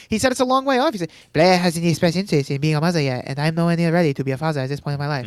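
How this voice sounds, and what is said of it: Hard-to-understand imitation of a character. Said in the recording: “my Louis impression gets worse and worse... I understand you more and more each time... You should not understand what I'm saying.”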